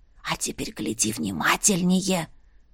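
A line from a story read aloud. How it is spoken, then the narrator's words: Whispering. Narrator (Russian): зашептала Марьяна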